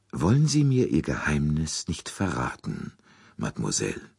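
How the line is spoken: Soft, imploring. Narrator (German): Poirots Stimme klang sehr sanft, fast beschwörend

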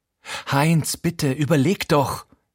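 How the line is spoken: Gasping. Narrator (German): japst sie unter mir

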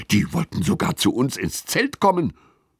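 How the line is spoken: Hissing. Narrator (German): zischt Lilly

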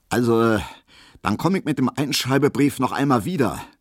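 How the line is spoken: Suddenly loud, dignified, official. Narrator (German): sagte Herr Schulze plötzlich sehr laut, sehr würdig, sehr ernst und sehr dienstlich

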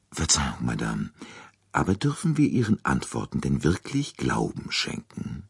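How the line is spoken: Very quiet question. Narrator (German): fragte Poirot sehr leise

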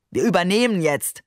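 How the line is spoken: Tossed-off remark. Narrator (German): warf er den Passagieren entlang des Korridors zu

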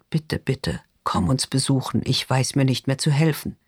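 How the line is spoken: Whisper. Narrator (German): flüstert

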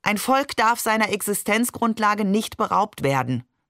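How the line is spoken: Plain. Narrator (German): sagte er

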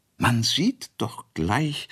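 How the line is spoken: Plain. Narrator (German): sagte die Quas

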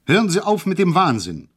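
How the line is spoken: Called out. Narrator (German): rief ich

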